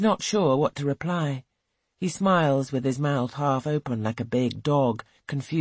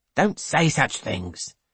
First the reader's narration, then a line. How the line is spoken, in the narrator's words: snaps Mr